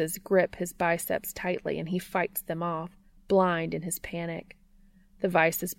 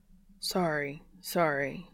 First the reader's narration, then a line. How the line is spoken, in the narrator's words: Dean mumbles